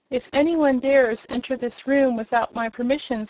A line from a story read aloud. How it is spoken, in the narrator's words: said Trot